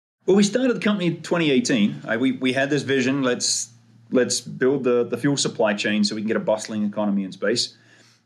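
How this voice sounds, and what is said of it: Australian accent. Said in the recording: “his Australian accent”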